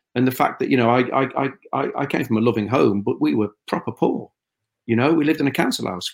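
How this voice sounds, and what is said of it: Scouse accent. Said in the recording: “I would probably go more Scouse the more pressure I felt ... I've become even more Scouse rather than less so.”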